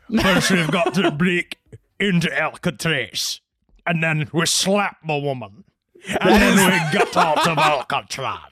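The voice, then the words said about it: Bad Sean Connery impression. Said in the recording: “Are you doing Sean Connery? ... that's the worst Sean Connery I have ever heard in my life.”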